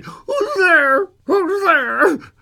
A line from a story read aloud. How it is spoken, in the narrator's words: Suddenly, the old man cried